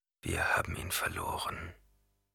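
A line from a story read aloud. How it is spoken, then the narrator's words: Quiet. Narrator (German): sagte er leise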